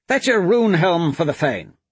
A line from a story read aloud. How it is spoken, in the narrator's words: Tarine shouted